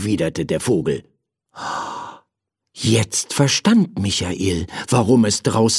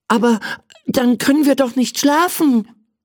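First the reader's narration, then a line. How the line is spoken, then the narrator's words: Excited shout. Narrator (German): rief er aufgeregt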